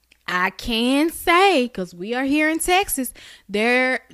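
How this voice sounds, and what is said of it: Country Texan accent slipping out. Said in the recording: “oh, I sounded real country ... accent slipped right the fuck on out, didn't it?”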